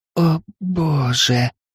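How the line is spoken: Muffled gasp. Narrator (Russian): выдохнула брюнетка, прикрыв рот рукой

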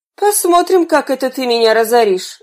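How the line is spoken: Muttering under breath. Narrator (Russian): Извозчик проворчал себе под нос

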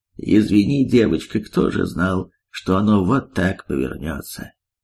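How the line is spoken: Gloomy. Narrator (Russian): Мрачно проговорил он

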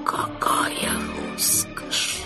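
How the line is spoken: Whisper. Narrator (Russian): прошептали они

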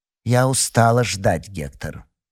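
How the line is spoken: Cold. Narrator (Russian): холодно произнесла она

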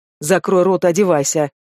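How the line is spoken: Fast growl. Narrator (Russian): рыкнул я со скоростью света

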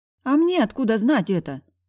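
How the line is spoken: Exclaimed. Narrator (Russian): воскликнула спасительница

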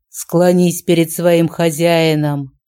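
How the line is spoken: Thundering voice. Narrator (Russian): прогремело

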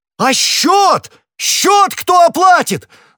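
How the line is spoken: Contemptuous yell. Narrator (Russian): завопил хозяин, расположение которого к гостю превратилось в глубочайшее презрение при виде того, как он удаляется, не рассчитавшись

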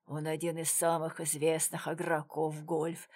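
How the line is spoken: Muttering stranger. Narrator (Russian): пробормотал незнакомец

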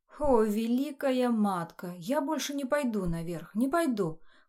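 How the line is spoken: Distant shouting. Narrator (Russian): кто-то кричал за углом

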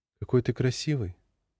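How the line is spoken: Tender, affectionate. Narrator (Russian): сказала девушка, нежно целуя его в губы

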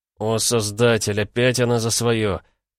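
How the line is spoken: Heavy sigh. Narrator (Russian): Тяжело вздохнул Слай

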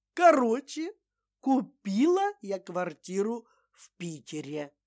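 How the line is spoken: Loud. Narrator (Russian): громко произнесла Валентина

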